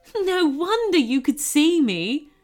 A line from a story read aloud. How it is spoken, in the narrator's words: chuckled the goblin